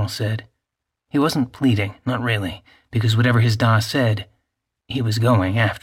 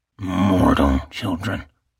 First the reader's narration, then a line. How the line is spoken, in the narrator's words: growled his father harshly